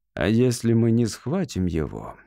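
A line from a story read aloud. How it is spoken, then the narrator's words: Gentle. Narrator (Russian): мягко сказал майор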